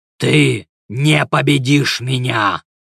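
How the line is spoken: Growling. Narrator (Russian): прорычал он

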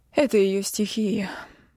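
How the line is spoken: Relieved exhale. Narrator (Russian): с облегчением выдохнула Аргира

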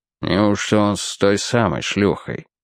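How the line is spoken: Muttering. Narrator (Russian): пробормотал Бьюкерелл

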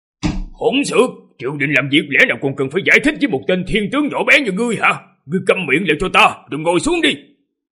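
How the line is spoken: Loud angry shout. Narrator (Vietnamese): Thư Thành tướng quân lớn tiếng mà quát

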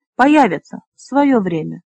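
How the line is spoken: Calm. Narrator (Russian): спокойно произнес Флар

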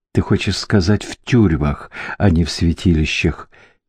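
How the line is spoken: Whisper. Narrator (Russian): прошептал Мариус

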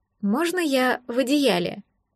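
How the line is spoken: Timid hesitant request. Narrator (Russian): нерешительно кивнула и робко попросила

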